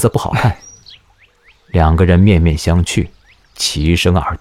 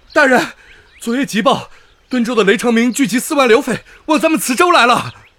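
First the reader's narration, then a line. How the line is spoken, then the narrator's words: Servant calling from outside. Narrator (Chinese): 小厮跪在门外喊道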